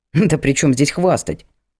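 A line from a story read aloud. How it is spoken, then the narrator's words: Snort. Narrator (Russian): Хмыкнул я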